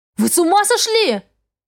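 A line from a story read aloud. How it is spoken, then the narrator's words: Frightened shout. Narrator (Russian): крикнула испуганно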